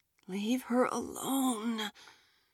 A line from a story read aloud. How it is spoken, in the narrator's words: Jazmine whispered to the empty car